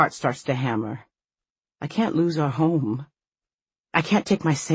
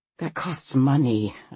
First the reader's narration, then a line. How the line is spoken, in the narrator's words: groan